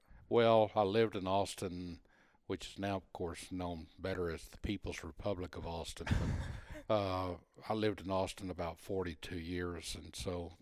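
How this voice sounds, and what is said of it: Texan accent. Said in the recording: “just guessing by your accent, Texas?”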